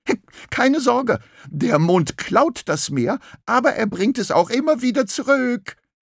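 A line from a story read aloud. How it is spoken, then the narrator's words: Crabs shouting after him. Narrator (German): schrien die Krebse ihm hinterher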